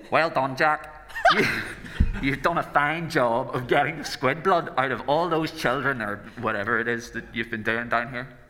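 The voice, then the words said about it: Put-on Northern Irish accent. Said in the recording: “Am I going to do an Irish accent? ... Do I have to do a Southern Irish accent, or can I just do my own? ... This can be Northern Irish, yeah ... Irish Bane”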